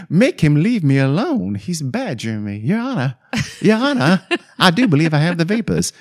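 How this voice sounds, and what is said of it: Put-on Southern Belle accent. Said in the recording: “I know that's a Southern Belle accent, and she's English, but I can't help myself.”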